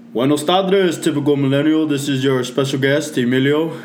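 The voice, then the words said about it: Radio announcer voice. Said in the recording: “good radio voice”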